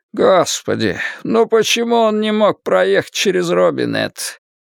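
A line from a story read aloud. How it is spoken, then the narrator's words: Groan. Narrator (Russian): простонал Бобби Терри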